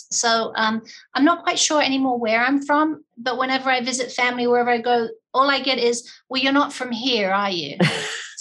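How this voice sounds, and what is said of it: Slight English-Australian accent. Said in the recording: “our listeners can probably hear a slight accent”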